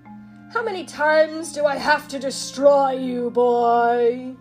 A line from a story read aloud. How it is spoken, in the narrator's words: he roared